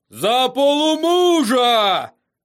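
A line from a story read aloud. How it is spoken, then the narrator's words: Shouted. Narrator (Russian): закричал он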